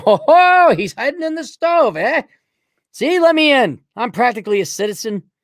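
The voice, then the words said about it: Put-on Irish accent. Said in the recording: “Can I do a great Irish impersonation?”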